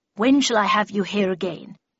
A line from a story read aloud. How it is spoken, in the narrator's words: said Miss Havisham, in a low growl